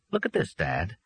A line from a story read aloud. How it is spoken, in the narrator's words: Jack said, and he managed to keep his voice calm and steady